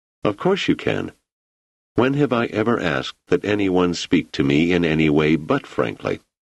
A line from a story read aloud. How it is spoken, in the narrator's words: his voice remained steady